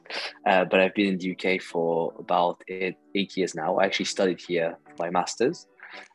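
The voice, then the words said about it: French accent. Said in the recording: “I'm originally from France, as you can probably guess from my name and my accent.”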